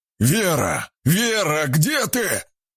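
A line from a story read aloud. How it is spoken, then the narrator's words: Man shouting. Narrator (Russian): крикнул мужчина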